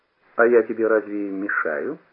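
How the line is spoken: Calm reply. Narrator (Russian): ответил Кашкет спокойно

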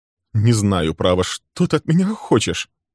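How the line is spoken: Trembling voice. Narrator (Russian): произнес он дрожащим голосом

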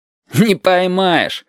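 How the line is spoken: Laughing. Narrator (Russian): засмеялся Витька

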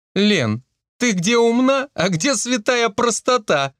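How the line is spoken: Laughing. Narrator (Russian): смеялась Марийка

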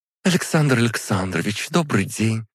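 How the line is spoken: Joyful, smiling. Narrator (Russian): радостно улыбнулась

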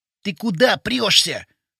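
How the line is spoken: Hissed. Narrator (Russian): прошипел Вовчик

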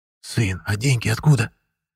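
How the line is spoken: Father whispering. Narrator (Russian): шепнул папа

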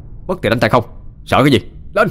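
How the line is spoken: Fearless shout. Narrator (Vietnamese): Đông không sợ mà còn quát lên

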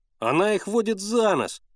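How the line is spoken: Shout. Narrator (Russian): закричал Генка

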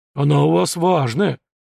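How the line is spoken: Deep bass voice. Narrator (Russian): пробасил Фома

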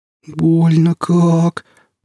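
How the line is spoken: Pained groan. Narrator (Russian): простонал Алексей, приседая на подламывающуюся ногу

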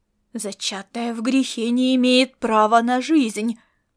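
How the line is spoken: Hissed through gritted teeth. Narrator (Russian): процедил он сквозь зубы

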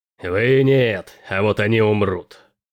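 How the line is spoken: Growled. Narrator (Russian): прорычал Келин

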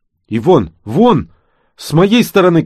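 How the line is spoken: Shouting. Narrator (Russian): крикнул Юрка

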